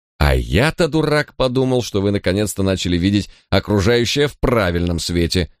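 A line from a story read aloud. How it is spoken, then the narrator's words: Grumble. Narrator (Russian): проворчал Джек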